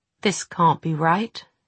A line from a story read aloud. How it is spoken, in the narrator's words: Jem whispered